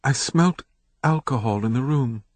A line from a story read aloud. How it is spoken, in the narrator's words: she whispered